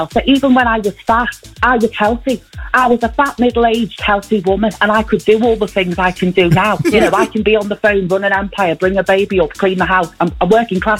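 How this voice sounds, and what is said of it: Close impression of Tina Malone. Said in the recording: “that an impression or is that AI? Because that sounds so close. ... an impression of someone doing an impression of Vanessa Feltz, Tina Malone.”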